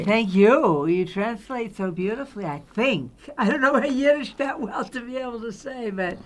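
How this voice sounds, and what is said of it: American accent. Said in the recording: “Especially with an American accent.”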